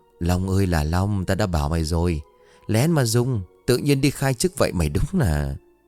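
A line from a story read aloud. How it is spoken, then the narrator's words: Several people whispering. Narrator (Vietnamese): vài người mới thì thầm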